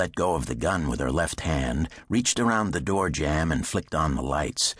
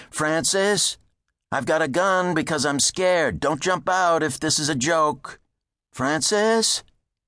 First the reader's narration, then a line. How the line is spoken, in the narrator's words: called out